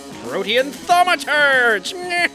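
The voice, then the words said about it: Impression of the Monarch. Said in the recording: “You sound exactly like the Monarch... You've got the Monarch nailed down.”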